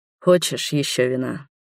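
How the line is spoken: Muffled, hollow voice. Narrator (Russian): глухо проговорил Роберт

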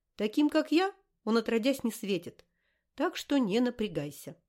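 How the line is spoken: Suddenly normal voice. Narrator (Russian): Цыганка ни с того ни с сего заговорила нормальным человеческим голосом

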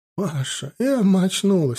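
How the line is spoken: Speaking through tears. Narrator (Russian): сквозь слезы проговорила Клара Васильевна

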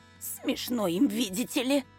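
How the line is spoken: Offended hiss. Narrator (Russian): обиженно прошипел распорядитель

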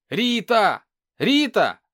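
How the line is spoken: Shouting. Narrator (Russian): закричал Артем

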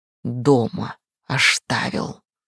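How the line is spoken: Hissing howl of cat. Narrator (Russian): прошипел, провыл кошак

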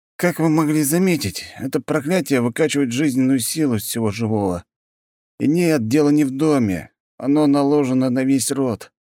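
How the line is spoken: Sighing. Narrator (Russian): вздохнул он

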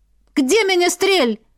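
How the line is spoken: Barked. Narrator (Russian): рявкнула Ива

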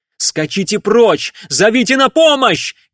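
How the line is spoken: Shout. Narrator (Russian): крикнул он ей

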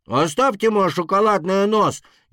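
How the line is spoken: Louder screaming, small dragon. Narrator (Russian): еще громче завопил дракончик

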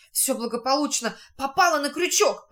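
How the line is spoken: Joyful whisper. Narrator (Russian): радостно прошептал он товарищам

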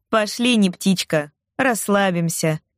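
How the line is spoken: Mocking call from another room. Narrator (Russian): насмешливо позвала Равена из гостиной

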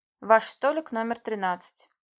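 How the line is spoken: Metallic indifferent female voice. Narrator (Russian): металлическим безразличным голосом сказала девушка в кимоно

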